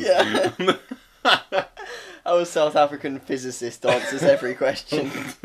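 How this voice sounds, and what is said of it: Bad put-on South African accent. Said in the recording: “terrible accent”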